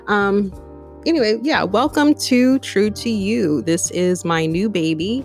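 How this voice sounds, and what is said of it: Slightly scratchy voice. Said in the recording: “My voice is a little scratchy. I'm overcoming a cold”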